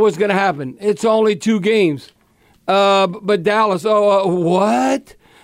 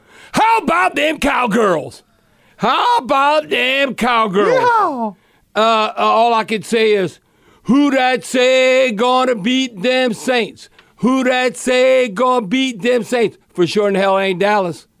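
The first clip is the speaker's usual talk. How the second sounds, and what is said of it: Jerry Jones impersonation. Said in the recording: “my Jerry Jones impersonation or Jimmy Johnson”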